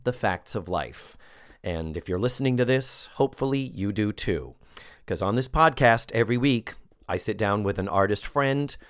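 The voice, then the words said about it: Sick-sounding voice. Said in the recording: “as you can hear from my voice, I'm a little sick right now”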